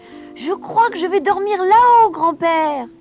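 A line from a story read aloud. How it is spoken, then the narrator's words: Shouting. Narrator (French): cria-t-elle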